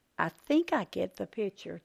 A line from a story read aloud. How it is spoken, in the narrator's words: Jan said quietly